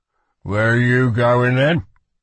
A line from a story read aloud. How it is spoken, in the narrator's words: he'd rumbled after her like thunder